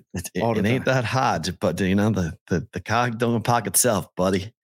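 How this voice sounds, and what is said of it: Put-on Boston accent. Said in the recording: “you dial up that Boston accent anytime you want ... That actually sounded ridiculous, but actually real. Like that's the way people talk.”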